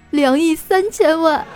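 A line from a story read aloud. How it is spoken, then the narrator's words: Crying. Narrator (Chinese): 闺蜜哭道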